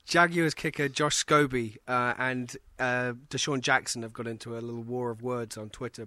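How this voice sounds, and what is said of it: Elegant British accent. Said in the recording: “as you can hear, he has that elegant British accent”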